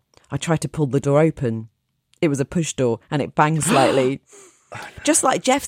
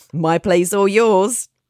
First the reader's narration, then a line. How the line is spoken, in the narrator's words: chuckled and jokingly said